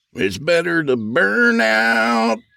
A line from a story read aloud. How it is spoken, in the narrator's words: Skeet wailed